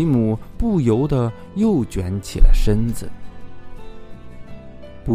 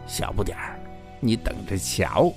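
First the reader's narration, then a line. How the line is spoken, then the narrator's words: Low threatening whisper. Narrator (Chinese): 讨厌鬼卢卡贴在吉姆的耳边，低声吓唬他说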